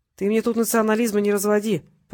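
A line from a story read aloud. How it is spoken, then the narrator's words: Grumbling. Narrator (Russian): проворчал Монплезир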